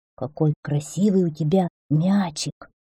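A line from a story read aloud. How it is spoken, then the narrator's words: Quiet speech. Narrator (Russian): один из них тихо сказал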